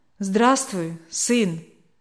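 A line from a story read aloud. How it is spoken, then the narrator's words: Calm. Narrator (Russian): спокойно проговорил он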